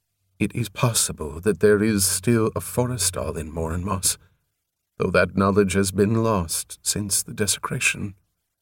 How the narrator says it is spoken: he added more gently

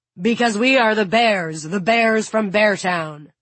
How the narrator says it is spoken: The man laughs, pretends to be angry, and frowns, hunches his shoulders, and growls

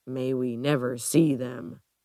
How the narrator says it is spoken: David Graves grumbles

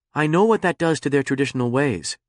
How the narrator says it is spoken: said Bren

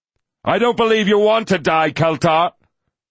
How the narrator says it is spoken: Lucan yelled after him

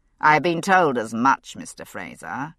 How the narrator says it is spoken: he said dryly

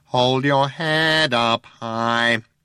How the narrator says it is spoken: it whined nasally

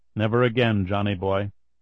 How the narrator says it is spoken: said aloud in a conversational tone

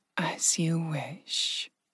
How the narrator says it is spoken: Virka whispered

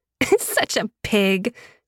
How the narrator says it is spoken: she laughed

